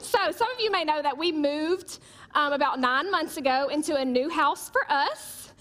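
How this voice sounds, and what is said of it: Thick regional accent. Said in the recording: “my accent's a little thicker than Chris Fry's”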